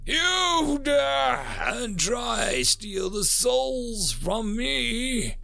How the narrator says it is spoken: roared over the speakers in her native tongue

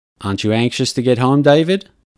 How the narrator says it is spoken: I asked

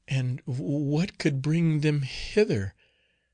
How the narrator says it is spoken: said another in a trembling voice

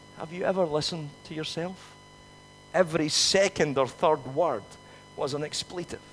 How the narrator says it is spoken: Morag very gently said to her

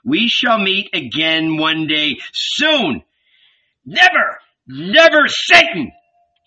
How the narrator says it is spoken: Jesus bellowed with his face buried in the sand

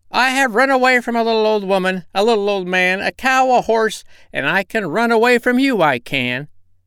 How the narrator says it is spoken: as he ran, he cried out

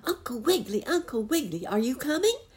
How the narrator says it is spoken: barked Jackie

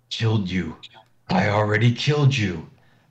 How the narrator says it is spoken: he growls

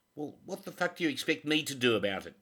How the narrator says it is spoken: Teddy snapped back

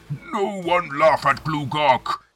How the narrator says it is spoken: he bellows

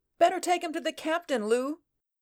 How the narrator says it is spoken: cried Thanis

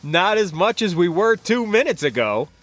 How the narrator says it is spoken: laughed

